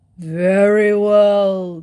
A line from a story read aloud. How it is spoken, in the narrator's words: growled the north wind